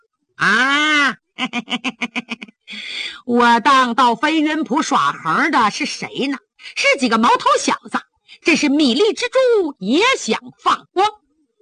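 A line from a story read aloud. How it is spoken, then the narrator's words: Laughing, condescending elder. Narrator (Chinese): 鬼影子甘飞哈哈一笑，倚老卖老地说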